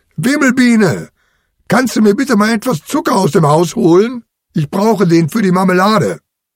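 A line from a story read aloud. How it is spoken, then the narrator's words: Calling out. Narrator (German): Lissi ruft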